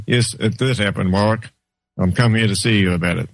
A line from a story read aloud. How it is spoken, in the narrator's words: clearly and calmly said